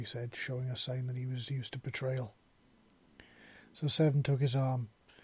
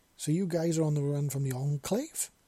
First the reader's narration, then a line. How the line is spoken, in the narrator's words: Gregory exclaimed